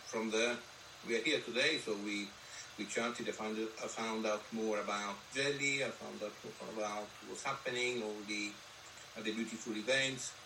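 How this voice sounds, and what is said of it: Foreign accent in English. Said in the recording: “that's not a Reading accent, is it? ... my accent is not very much from Reading or from this country either ... this lovely foreign accent”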